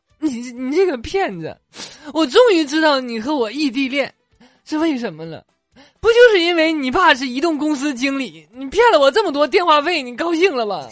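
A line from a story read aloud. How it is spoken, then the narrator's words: Girl crying out on phone. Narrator (Chinese): 女生在电话里哭喊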